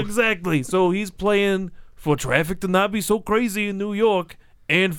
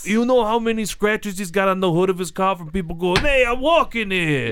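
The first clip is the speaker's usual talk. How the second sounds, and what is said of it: Put-on Brooklyn New York accent. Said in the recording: “He's from New York. ... Brooklyn accent.”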